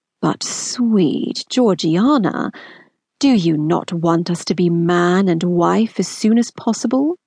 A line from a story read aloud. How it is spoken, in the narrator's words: Wickham's voice was now basically just a purr